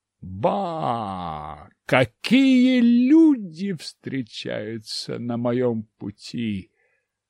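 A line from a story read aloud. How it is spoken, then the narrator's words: Exclamation. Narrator (Russian): воскликнул я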